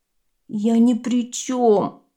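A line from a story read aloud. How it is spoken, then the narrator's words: Groaning. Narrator (Russian): простонал бамбук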